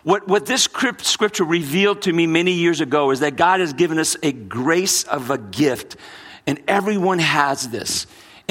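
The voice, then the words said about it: Mixed American regional accent. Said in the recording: “My accent's a little mixed because my parents were Brazilians ... born in Brooklyn, New York, raised in New Orleans, Louisiana”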